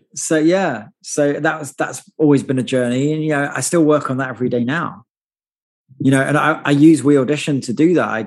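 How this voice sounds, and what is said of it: Non-American accent. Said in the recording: “Did you have a good American accent before you came? ... Hell no ... as you can hear, I haven't properly lost my accent at all”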